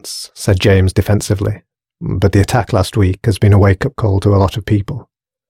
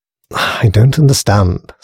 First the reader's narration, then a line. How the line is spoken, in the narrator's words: sighed Grace